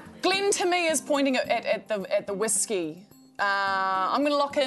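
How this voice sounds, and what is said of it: Usual voice. Nothing is said of it.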